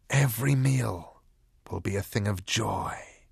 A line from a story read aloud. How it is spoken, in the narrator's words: whispered the voice from under the old man's hat